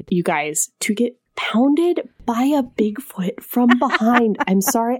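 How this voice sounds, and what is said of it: Whispering. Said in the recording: “I'm whispering, but I can't say it louder.”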